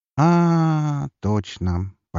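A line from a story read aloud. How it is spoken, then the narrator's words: Drawn out, pouting. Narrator (Russian): поджав губки, протянула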